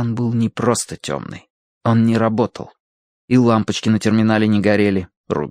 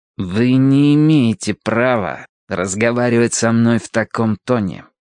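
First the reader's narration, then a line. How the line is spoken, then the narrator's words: Through gritted teeth. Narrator (Russian): процедил Гилкрист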